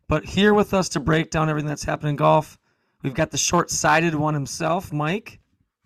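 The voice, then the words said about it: Voice sounds off from illness. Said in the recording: “my voice. It seems a little bit not on its A game ... I'm just have some bug going through me, so I apologize for my voice.”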